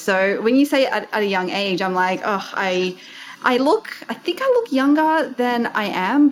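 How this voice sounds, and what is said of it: Australian accent. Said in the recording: “You might be able to tell from my accent, I am Aussie.”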